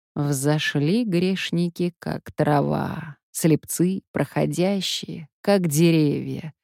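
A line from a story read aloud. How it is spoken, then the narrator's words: Muffled voice from alcove. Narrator (Russian): глухо из ниши вступил отец Антоний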